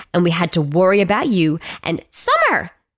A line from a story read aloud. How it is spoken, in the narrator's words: Jules shrieked